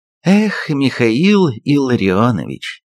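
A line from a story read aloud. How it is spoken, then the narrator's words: Sighing. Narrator (Russian): вздохнула я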